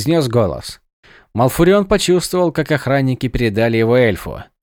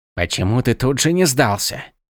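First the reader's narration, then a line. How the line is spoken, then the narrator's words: Muttered. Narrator (Russian): пробормотал Иллидан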